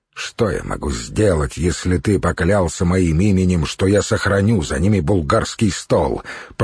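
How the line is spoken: Grumble. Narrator (Russian): проворчал Святослав

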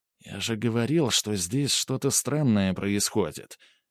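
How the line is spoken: Whispered reply. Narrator (Russian): также шепотом ответил Снегирь

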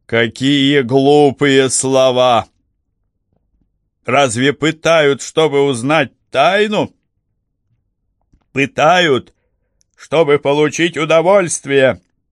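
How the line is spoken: Gleeful, through laughter. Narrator (Russian): Он долго и радостно хохотал и, наконец, произнес сквозь смех

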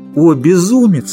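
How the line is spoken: Exclaiming. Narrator (Russian): воскликнула она

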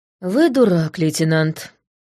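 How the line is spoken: Tired. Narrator (Russian): устало сказала я

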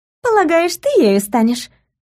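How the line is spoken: Giggling. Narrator (Russian): Адель хихикнула

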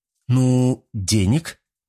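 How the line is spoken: Confused young woman. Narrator (Russian): как-то растерянно ответила девушка

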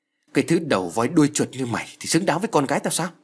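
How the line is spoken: Angry. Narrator (Vietnamese): Ông Hơn giận dữ nói

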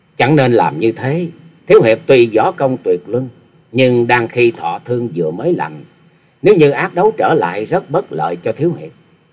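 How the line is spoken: Smiling. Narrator (Vietnamese): Thiếu nữ mỉm cười

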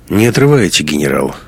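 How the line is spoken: Answered dryly. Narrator (Russian): сухо ответил Гумилев

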